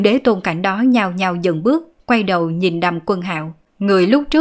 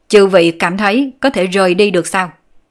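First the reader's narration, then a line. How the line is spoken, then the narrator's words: Scoffing, raised voice. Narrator (Vietnamese): Đàm Quân Hạo hừ nhẹ một tiếng, cất cao giọng nói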